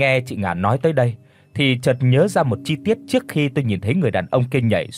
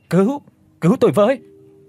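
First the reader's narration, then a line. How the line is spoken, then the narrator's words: Falling man screaming. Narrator (Vietnamese): anh ta rơi từ trên cao xuống đất, anh ta đã hét lên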